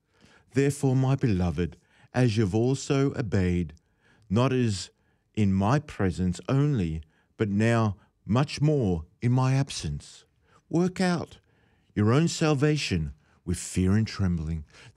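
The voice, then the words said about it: Preacher's ministerial voice, formal old-style. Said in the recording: “put on my ministerial voice now, because I'm speaking efficiently and fluently in the old style King James”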